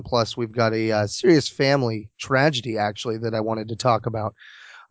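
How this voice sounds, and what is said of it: Slightly hoarse voice. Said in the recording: “my voice is a little hoarse right now. I've got a little cold”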